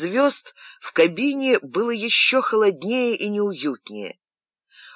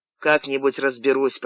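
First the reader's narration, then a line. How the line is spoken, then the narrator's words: Pilot's grumble. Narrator (Russian): проворчал пилот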